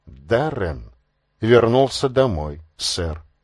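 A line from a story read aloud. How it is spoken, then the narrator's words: Whisper. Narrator (Russian): шепотом сказал Массингем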